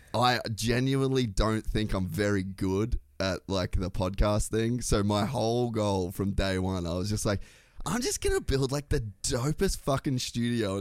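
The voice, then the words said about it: Australian accent. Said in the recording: “the sweet Australian accent ... it sounds really nice”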